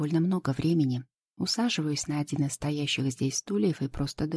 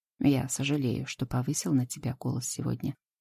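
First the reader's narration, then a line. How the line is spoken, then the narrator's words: Calm. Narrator (Russian): спокойно произносит Идрис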